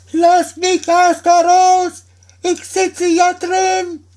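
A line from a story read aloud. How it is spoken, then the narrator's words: Frightened high-pitched call. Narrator (German): dem Daumerling Angst mit heller Stimme rief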